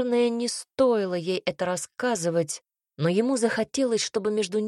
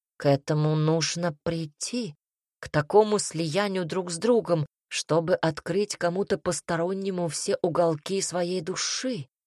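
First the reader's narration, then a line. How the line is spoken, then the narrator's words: Soft. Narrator (Russian): ответил он мягко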